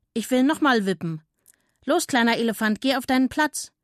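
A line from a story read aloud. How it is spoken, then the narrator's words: Monkey calling out. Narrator (German): rief der Affe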